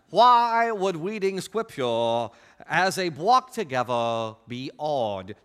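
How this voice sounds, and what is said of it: Imitates a Princess Bride character voice. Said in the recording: “in your favorite voice from The Princess Bride”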